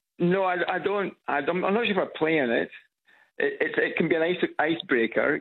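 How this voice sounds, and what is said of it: Scottish accent. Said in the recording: “this Scottish accent ... I'm from Edinburgh”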